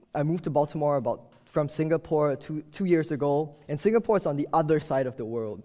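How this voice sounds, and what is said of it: Strange non-American accent. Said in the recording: “you can probably tell by now, my strange accent, I'm not from the U.S.”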